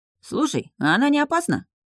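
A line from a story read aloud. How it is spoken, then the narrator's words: Snort. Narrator (Russian): фыркнул Андрей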